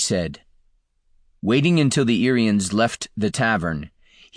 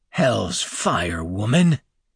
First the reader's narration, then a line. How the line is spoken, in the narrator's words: growled